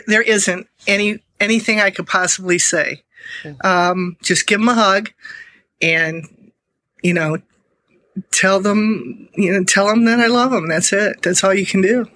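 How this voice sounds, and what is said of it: Emotional, choked-up voice. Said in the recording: “We hear the emotion in your voice.”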